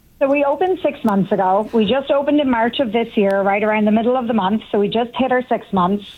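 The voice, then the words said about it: Irish accent. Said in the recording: “you have a little twang of an accent ... I'm from a place called Sligo, which is in the west of Ireland”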